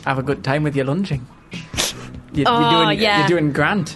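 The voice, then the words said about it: Put-on Geordie accent. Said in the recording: “In a Geordie accent. ... I'm sorry to any Geordies out there listening to this”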